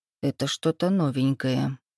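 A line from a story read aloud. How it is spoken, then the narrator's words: Muttered. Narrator (Russian): пробормотал Эдик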